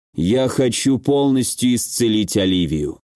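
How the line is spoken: Even, level voice. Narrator (Russian): ровным голосом произнес Ричард

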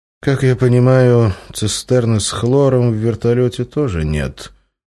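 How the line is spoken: Sighing. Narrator (Russian): вздохнул рентген

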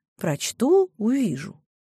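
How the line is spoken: Calm, confident reply. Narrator (Russian): Мариша была твердо уверена, что у Екатерины Серапионовны плохих книг быть не может, поэтому ответила спокойно

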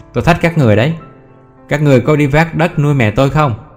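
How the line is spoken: Almost shouting. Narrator (Vietnamese): Chị nói như hét

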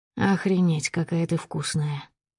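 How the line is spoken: Hoarse rasp. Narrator (Russian): хрипит майор

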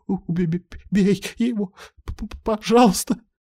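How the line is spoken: Stammering plea. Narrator (Russian): Лида перестала кричать и, заикаясь, взмолилась

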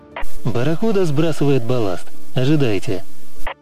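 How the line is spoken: Radio hiss. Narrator (Russian): зашипела рация

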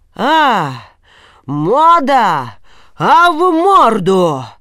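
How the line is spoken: Terrifying shout. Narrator (Russian): страшным голосом закричал Елисей

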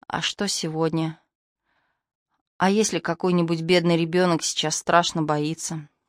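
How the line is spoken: Sighing. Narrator (Russian): Мари вздохнула

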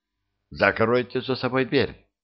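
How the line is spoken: Curt, sharp. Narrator (Russian): она резко предложила

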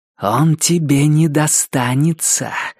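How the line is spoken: Hissed. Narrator (Russian): прошипела охотница

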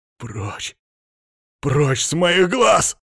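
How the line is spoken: Angry growl. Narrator (Russian): зарычал Тион

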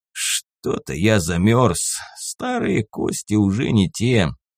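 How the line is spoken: Unembarrassed old man mumbling. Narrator (Russian): пробормотал ничуть не смутившийся старик

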